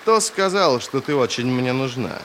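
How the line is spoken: Snort. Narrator (Russian): Ферро фыркнула

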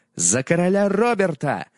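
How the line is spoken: Shouted. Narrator (Russian): закричал он

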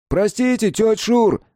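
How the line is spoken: Friendly shout. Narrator (Russian): дружелюбно крикнул чернявый

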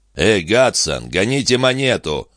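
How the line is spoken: Growling. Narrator (Russian): прорычал одноглазый соперник

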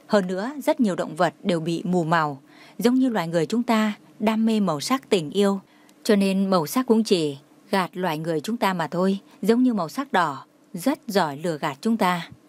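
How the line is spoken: Smiling. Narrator (Vietnamese): Trang Hạo Nhiên mỉm cười nói

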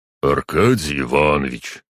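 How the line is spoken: Sad low voice. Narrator (Russian): грустным низким голосом проговорил полицейский посыльный

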